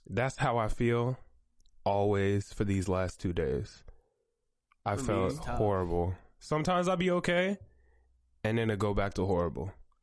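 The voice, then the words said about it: Sick, weird-sounding voice. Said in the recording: “excuse my voice. I'm a little under the weather, so my voice might sound a little weird. I'm sick as hell right now.”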